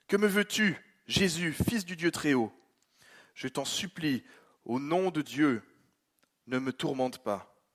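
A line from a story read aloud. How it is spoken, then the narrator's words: Loud cry. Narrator (French): s'écria d'une voix forte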